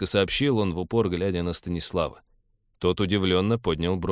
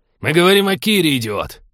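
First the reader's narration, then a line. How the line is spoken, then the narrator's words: Growl. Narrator (Russian): прорычал Кудрявый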